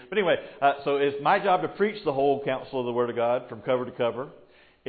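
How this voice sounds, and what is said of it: Southern US Georgian accent. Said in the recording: “a redneck Georgian pastor that has an accent”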